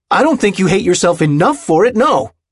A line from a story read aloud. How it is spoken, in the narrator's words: he'd yelled back